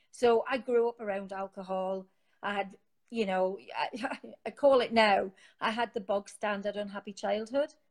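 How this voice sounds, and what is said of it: Newcastle (Geordie) English accent. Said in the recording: “as you can tell from my accent, I'm from Newcastle”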